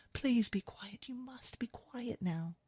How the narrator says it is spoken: she whispers

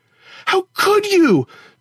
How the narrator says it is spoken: Tara screamed

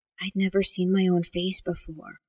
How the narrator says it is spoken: Amanda whispered

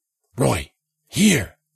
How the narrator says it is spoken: Jensen whispered

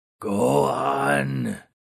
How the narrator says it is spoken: Thunderously croaked the ghoul

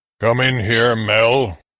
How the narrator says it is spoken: my father rumbled from his bedroom

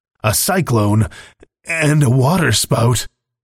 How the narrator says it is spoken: muttered Eastwood, appalled

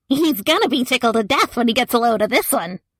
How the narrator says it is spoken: She laughed a cackle that sounded like a gurgling brush fire

